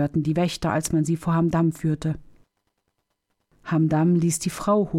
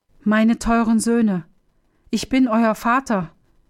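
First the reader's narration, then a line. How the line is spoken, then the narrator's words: Father calling out. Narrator (German): rief Hamdam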